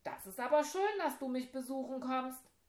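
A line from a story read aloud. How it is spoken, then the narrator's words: Called back. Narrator (German): rief zurück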